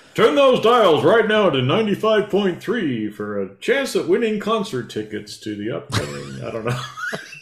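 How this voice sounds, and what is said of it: Radio DJ announcer voice. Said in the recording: “My little DJ voice.”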